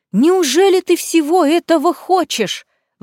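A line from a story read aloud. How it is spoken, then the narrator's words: Exclaiming. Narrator (Russian): воскликнула тетя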